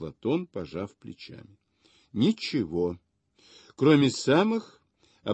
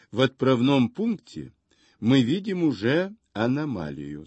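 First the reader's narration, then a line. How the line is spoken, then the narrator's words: Plain. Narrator (Russian): сказал он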